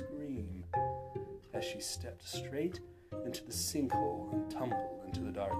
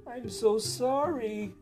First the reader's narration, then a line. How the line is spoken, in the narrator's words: she cried